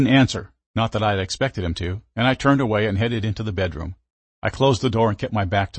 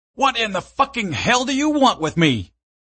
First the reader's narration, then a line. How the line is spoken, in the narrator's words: I screamed at him